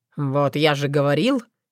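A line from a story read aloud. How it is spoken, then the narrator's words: Snorting. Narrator (Russian): хмыкнул Филипп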